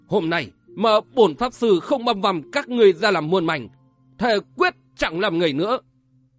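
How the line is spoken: Gritted teeth, growling. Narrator (Vietnamese): Bà Đà Hồng nghiến răng trèo trẹo, gằn giọng nói

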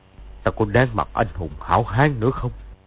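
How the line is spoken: Troubled muttering. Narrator (Vietnamese): Từ Ân trong lòng bối rối, lẩm bẩm một mình

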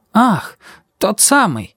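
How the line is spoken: Disapproving exclamation. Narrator (Russian): воскликнула тетя Ада, неодобрительно сверкнув глазами

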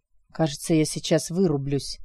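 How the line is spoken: Sleepy mumble. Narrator (Russian): Алекс засыпает, едва успев пробормотать

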